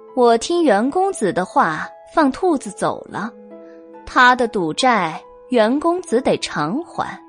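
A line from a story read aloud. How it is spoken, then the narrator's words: Soft smiling, close to ear. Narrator (Chinese): 玳瑁笑着凑向袁耀耳边，柔声道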